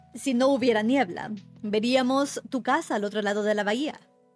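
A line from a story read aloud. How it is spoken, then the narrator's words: Plain. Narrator (Spanish): dijo Gatsby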